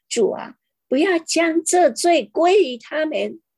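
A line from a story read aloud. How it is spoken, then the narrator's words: Loud cry. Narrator (Chinese): 大声喊着说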